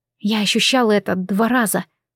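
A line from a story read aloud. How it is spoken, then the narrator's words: Whispered aloud. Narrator (Russian): вслух прошептала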